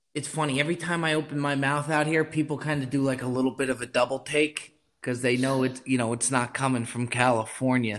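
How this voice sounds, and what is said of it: East Coast New Jersey accent. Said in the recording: “The accent definitely didn't leave me ... I definitely hear some East Coast coming from you. I thought it was Long Island at first”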